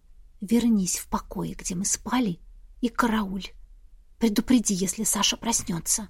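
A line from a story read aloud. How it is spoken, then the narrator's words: Whispered request. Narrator (Russian): Я шепотом попросила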